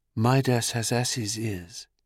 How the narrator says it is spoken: the reed softly whispered

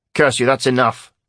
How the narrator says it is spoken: snapped the guard

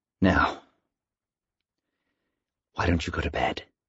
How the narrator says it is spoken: Al said quietly

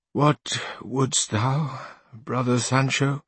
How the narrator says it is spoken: answered Don Quixote in the same feeble, suffering tone as Sancho

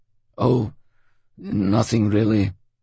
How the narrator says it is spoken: Homer stammered

